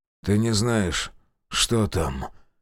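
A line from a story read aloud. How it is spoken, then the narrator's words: Hoarse. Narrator (Russian): хрипло произнес он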